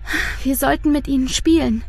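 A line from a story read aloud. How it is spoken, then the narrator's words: Sighing. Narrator (German): seufzt Luise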